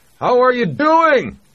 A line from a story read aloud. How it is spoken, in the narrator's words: he shouted over the wind